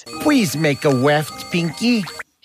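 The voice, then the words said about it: Baby voice. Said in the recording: “he talks in a baby voice.”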